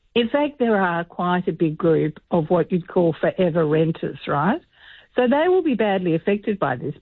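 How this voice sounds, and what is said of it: Slightly hoarse, croaky voice. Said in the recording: “I've got a bit of a frog in my throat.”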